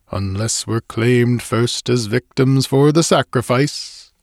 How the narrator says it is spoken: he added, with a foolish laugh

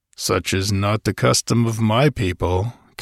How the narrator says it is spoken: Conan growled

